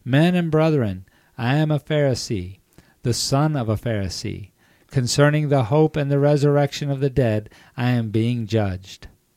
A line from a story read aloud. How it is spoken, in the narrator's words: he cried out in the council